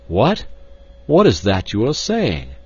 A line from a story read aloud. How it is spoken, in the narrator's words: cried the professor